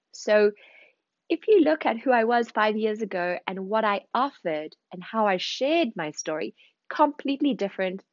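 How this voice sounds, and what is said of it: Zimbabwean South African accent. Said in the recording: “you're probably hearing in my accent, I was born in Zimbabwe, raised in South Africa, spent 10 years in London before moving to Paris”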